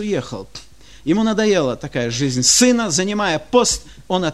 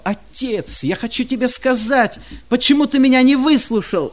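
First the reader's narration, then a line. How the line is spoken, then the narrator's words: Shouting. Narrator (Russian): кричал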